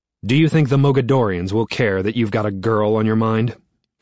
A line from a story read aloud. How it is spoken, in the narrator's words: He snaps